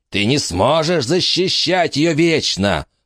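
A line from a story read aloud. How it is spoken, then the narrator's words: Hissing. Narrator (Russian): прошипел человек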